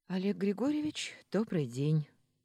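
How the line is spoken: Breathy exhale. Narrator (Russian): выдохнула

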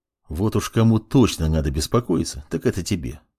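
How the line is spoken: Calm, mage. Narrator (Russian): спокойно произнес маг

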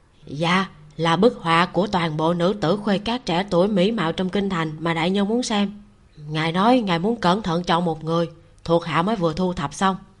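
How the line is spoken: Lowered voice, outside window. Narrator (Vietnamese): Ám vệ ngoài cửa sổ hạ giọng

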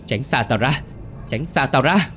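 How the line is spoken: Terrified scream. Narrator (Vietnamese): Bà Sen thất kinh hét lên

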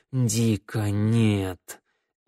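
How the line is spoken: Moan. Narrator (Russian): змеевик простонал

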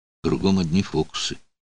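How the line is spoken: Muttered. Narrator (Russian): пробормотал Дутер

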